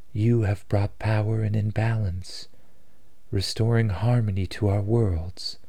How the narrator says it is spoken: she said, her voice filled with warmth

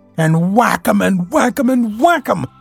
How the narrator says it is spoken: cried the toad in ecstasy

